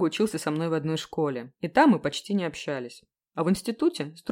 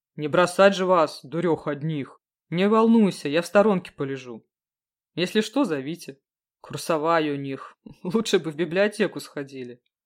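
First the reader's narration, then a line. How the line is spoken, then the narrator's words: Grumbling under breath. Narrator (Russian): пробурчал друг себе под нос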